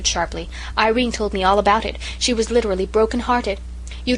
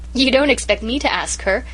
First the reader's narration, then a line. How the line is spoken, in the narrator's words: giggled Amy McAllister